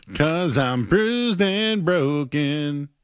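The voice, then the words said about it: Emo singing voice. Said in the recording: “I did my emo voice.”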